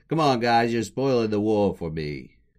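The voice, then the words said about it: Poor imitation of a comedy character. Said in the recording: “terrible Larry impression.”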